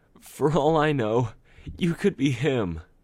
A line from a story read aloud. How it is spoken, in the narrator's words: cried